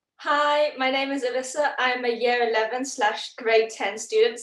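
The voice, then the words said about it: British accent. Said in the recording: “A lot of teachers at my school are British, plus my mum grew up in London and she never lost the accent. So this is why I speak like this. ... it's such a fancy accent”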